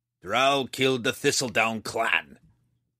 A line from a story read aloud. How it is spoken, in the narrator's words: he growled